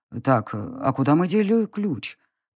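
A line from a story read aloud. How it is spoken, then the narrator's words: Muttering to himself. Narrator (Russian): пробормотал он себе под нос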